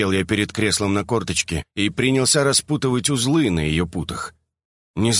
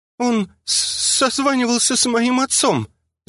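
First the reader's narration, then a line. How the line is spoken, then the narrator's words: Stammering. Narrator (Russian): запинаясь, поделилась Харин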